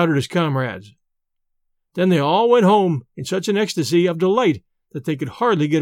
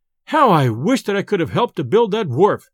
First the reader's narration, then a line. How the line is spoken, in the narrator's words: exclaimed